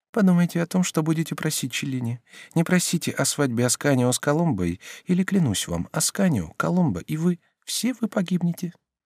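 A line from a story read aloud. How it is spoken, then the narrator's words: Very quiet and fast. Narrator (Russian): Потом она прибавила очень тихо и очень быстро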